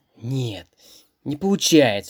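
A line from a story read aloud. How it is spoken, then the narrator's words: Sad man's voice. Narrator (Russian): грустно сказал дяденька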